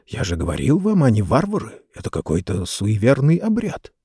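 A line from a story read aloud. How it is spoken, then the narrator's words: Whispered. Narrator (Russian): один версгорец прошептал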